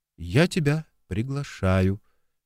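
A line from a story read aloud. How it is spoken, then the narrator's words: Quiet. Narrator (Russian): также негромко ответила Валерий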